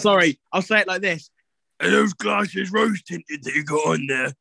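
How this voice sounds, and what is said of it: Put-on Cheltenham accent. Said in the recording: “Is that your Cheltenham accent?”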